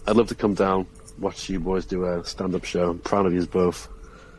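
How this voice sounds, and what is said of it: Antiques Roadshow-like accent, bit laddish. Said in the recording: “What a voice! How good's that accent? ... that was a good accent ... like Antiques Roadshow ... a bit more laddie, a bit more personable.”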